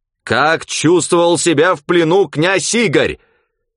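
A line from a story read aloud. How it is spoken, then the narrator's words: Nearly shouting, angry. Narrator (Russian): Почти закричал профессор, опять испытывая прилив злости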